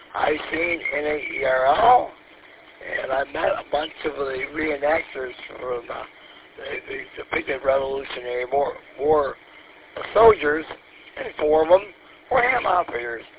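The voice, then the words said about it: Slightly hoarse voice. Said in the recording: “I'm a little hoarse, as you probably would know why”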